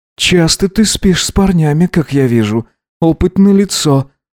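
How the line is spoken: Embarrassed breathy exhale. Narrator (Russian): выдохнул он, мечтая наконец-то перестать краснеть

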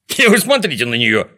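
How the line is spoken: Shouted. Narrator (Russian): закричал Звездочкин

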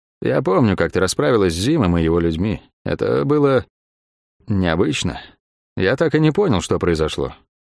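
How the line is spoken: Even, level voice. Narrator (Russian): акробат ровным голосом произнес

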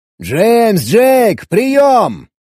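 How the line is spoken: Shout. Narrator (Russian): крикнул

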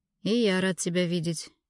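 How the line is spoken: Sad reply. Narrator (Russian): грустно ответил шеф

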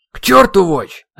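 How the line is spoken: Sharp barking. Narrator (Russian): резко рявкнул Ирамю

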